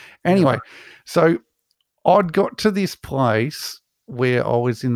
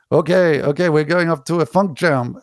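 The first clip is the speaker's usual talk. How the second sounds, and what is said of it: Bad put-on Spanish accent. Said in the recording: “that's my really bad English, Spanish accent”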